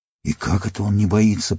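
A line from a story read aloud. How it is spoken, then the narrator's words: Gnome muttering. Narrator (Russian): пробормотал гном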